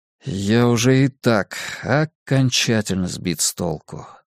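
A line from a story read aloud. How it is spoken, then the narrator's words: Mumbling. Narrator (Russian): пробормотал я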